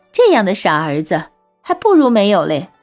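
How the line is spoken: With a slight smile. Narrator (Chinese): 小翠微微一笑，说

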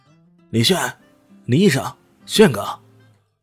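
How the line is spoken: Calling out loudly. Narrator (Chinese): 呼喊着，喊得如此混搭

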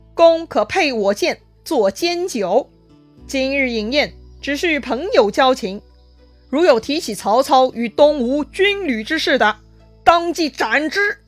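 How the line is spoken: Loud command. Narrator (Chinese): 周瑜大声吩咐

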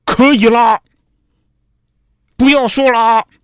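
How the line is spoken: Shouting. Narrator (Chinese): 马德兰吼了一声

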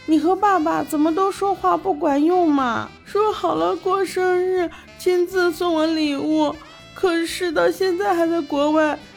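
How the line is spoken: Sudden crying. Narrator (Chinese): 小文奶突然哭了起来

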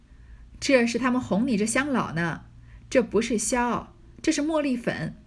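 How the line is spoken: Laughing. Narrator (Chinese): 彩云笑道

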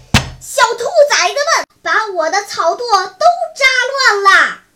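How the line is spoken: Angry old man shouting afar. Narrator (Chinese): 草垛的主人二黑的爷爷远远地跺着脚喊叫

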